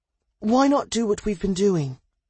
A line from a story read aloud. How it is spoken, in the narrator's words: Hans sighed